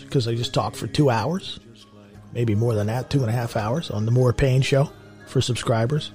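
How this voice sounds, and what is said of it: Raspy, hoarse voice. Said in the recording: “My voice is a little raspy, a little hoarse”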